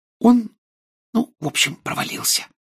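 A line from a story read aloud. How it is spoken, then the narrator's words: Whisper. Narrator (Russian): прошептала Гермиона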